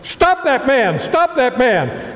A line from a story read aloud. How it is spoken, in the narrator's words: Major Rathbone came to the edge of the balcony and shouted